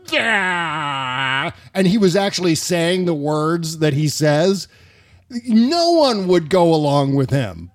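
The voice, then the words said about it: Exaggerated dumb guy voice. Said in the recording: “the dumbest dumb guy voice that I can come up with”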